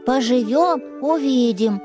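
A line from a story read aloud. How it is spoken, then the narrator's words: Grumbling bear cub. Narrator (Russian): проворчал медвежонок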